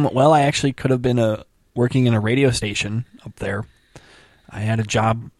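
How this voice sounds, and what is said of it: Usual voice. Nothing is said of it.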